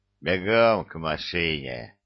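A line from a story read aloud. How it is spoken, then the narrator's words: Chilling deep bass command. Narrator (Russian): Отдал он приказание все тем же заставляющим стынуть в жилах кровь басом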